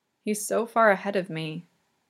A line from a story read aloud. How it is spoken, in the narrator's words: Yuri murmurs softly, brokenly